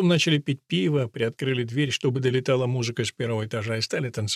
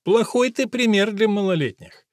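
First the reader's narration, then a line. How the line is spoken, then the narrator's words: Giggling, mocking. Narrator (Russian): Обе надо мной хихикали и говорили тощему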